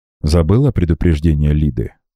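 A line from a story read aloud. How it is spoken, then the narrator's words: Deliberately calm reminder. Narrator (Russian): нарочито невозмутимым тоном напомнил он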